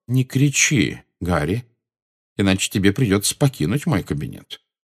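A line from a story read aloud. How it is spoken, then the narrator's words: Calm. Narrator (Russian): спокойно произнес Дамблдор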